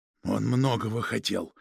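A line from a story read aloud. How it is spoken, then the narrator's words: Said hoarsely. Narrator (Russian): сказал хрипло Протасов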